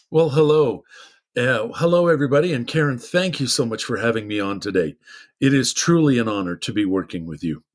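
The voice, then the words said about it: Radio-style voice. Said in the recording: “you have got the radio voice.”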